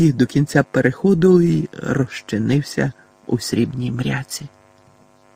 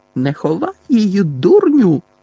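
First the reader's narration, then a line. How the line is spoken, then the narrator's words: Shrieked. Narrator (Ukrainian): заверещала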